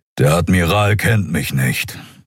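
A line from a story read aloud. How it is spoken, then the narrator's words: Grumbling. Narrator (German): brummte der Skria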